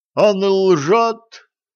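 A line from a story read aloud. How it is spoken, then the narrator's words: Muffled shout from sack. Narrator (Russian): выкрикнул из мешка толстяк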